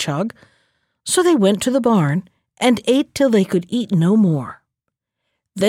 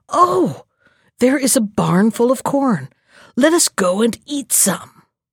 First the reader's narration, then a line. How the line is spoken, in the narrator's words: the jackal exclaimed